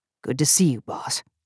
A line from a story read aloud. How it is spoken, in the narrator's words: Jacken whispered